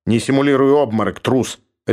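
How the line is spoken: Harsh bark. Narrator (Russian): рявкнул Георг

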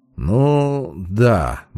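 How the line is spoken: Muttered. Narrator (Russian): буркнул я

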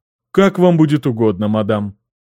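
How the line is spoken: Muffled, hollow voice. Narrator (Russian): произнесла одна из них глухим голосом

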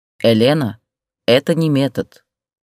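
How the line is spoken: Stern. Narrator (Russian): строго сказал

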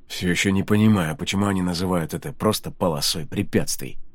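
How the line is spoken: Mutter. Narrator (Russian): пробормотал Ридок

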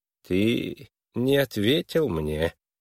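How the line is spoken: Silky, insinuating. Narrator (Russian): вкрадчиво продолжал Твиссел

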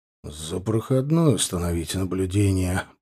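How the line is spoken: Muttering. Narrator (Russian): пробормотал Николай

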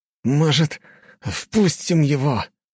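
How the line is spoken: Through gritted teeth. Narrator (Russian): сквозь зубы процедил один из людей

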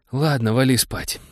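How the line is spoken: Sighing. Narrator (Russian): вздохнул лейтенант

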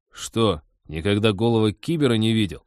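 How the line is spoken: Angry question. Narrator (Russian): зло поинтересовался Вадим

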